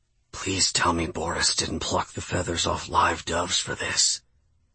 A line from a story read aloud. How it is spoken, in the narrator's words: I whispered in Casey's ear